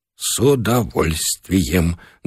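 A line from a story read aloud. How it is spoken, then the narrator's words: Trembling voice. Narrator (Russian): дрогнувшим голосом пообещал Бычков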